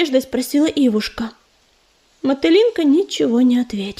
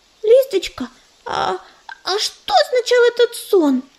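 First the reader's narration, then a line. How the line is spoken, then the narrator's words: Excited schoolgirl asking. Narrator (Russian): взволнованно спросила ученица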